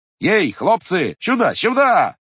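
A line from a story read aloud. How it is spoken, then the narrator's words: Shout. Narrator (Russian): кричал он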